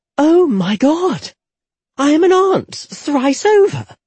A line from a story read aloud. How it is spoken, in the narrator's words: Jetta gasped